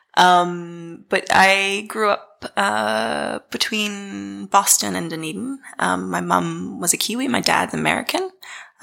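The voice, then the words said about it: New Zealand accent. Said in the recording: “as you can probably tell from my accent, I come from Dunedin”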